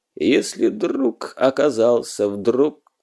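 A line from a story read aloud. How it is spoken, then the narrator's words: Hoarse resolute voice, guitar strumming. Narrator (Russian): раздались переборы гитары, и хриплый голос решительно заявил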